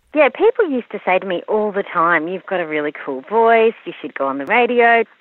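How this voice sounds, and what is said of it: Very young-sounding woman's voice. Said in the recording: “I'm told I sound very young ... You do have a very young-sounding voice”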